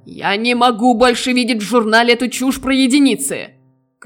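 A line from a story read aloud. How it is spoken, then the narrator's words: Shouted. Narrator (Russian): кричал Нойнович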